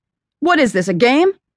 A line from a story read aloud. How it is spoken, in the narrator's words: was practically shouting now, getting angrier by the second